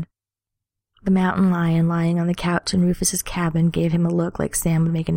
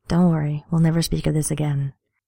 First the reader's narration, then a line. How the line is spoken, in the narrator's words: Cat Dean purred